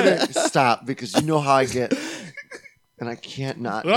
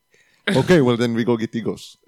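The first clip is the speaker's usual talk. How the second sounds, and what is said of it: Put-on unidentifiable accent. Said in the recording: “It's hard not to do a voice ... I don't even know what kind of accent that was.”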